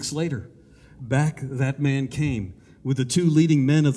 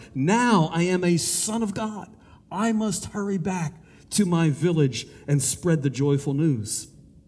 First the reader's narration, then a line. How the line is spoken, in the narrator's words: His face was radiant, and with joy he cried